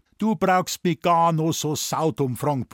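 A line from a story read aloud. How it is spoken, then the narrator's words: Blustering. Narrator (German): polterte Dr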